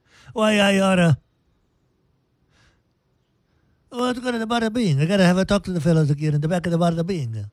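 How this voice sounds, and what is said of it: Put-on New York mobster accent. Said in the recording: “So a New York accent. ... I sound like James Gaffaldini, Gandolfini.”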